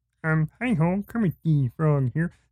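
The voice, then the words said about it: Kermit the Frog character voice. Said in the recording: “See, I can do a good Kermit ... that's not bad”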